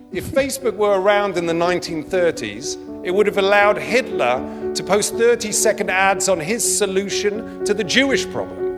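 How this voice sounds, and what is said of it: British accent. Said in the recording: “that's his accent, he's but British.”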